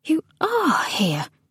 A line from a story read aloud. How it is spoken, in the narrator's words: said Nona, finding talking was hard, that her voice sounded drowsy in her own ears